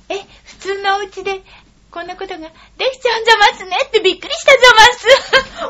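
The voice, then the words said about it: Imitates Suneo's mother cartoon voice. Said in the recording (Japanese): “スネ夫のお母さんの声で聞かせてください ... スネ夫のお母さん ... 見たのと同じだ”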